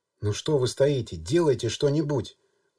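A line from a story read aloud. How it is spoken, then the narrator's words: Stern. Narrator (Russian): Галина Анатольевна произнесла это строго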